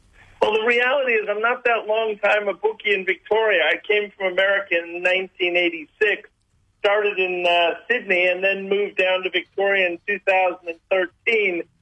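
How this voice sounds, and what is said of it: Slight American twang. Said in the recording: “you've got an accent. I wasn't expecting a long-time Victorian country bookie with a bit of an American twang.”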